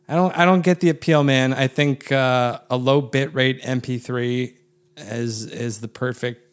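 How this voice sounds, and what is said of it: Sarcastic tone. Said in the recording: “being sarcastic”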